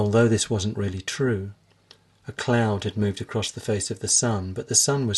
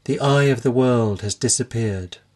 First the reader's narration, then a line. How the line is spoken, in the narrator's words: exclaimed